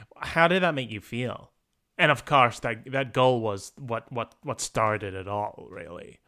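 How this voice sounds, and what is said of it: Put-on American accent. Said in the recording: “He doesn't sound like that at all, but that's just my American accent right now.”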